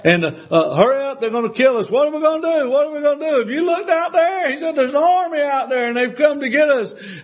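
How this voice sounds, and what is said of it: South Carolina Southern accent. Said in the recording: “I'm putting it in my own South Carolina dialect.”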